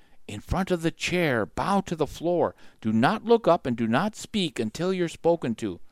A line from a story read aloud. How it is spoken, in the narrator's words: In her strange, whispery voice, she said